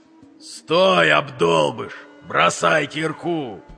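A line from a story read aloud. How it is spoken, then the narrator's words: Full-force howl. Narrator (Russian): Что было мочи, взвыл Вик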